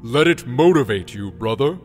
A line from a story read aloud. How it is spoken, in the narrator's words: Gemite said, his voice booming